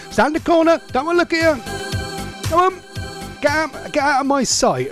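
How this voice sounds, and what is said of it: Stern scolding dad voice. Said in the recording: “this is my dad voice”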